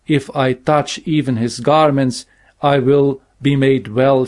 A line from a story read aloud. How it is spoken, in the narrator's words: said